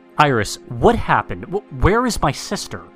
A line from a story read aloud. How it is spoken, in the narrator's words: Xander exclaimed